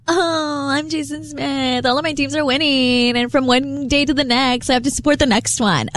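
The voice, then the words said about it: Valley Girl voice imitating another person. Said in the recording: “why are you going Valley Girl with my impression? ... That's not how I sound.”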